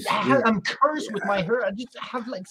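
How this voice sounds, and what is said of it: French Canadian accent. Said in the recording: “you're French Canadian, and you look French ... you got the accent going”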